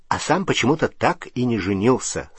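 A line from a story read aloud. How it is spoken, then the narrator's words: Plain. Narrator (Russian): сказал Рон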